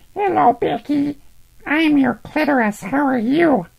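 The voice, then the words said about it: Unnatural-sounding character voice. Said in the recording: “You sound like my old voice does a little bit. ... your old voice was fucked up. Sounded really... unnatural.”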